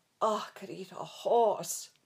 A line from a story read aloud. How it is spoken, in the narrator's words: Pat moaned